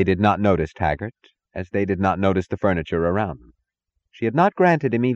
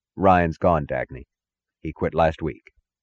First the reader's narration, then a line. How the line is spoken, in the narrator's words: said, his voice as even as hers